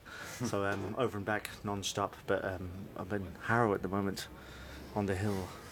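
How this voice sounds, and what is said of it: London Irish accent. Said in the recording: “That's definitely an accent that's floating back and forth across the Irish Sea for sure.”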